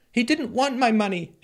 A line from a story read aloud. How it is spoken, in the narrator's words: Ennis pleaded